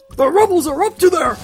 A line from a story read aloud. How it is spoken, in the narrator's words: blurt out